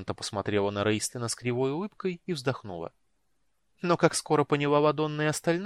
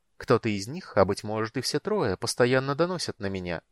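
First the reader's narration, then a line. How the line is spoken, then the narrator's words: Calm. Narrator (Russian): спокойно сказала Эоланта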